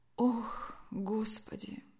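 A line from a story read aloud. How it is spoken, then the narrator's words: Sick woman moaning. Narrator (Russian): Как бы простонала больная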